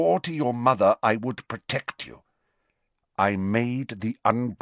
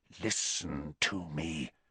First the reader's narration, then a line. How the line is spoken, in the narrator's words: said Snape, his voice so low now